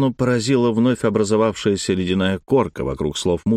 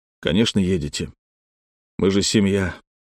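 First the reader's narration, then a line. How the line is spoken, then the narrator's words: Sighing. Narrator (Russian): вздохнул Алексей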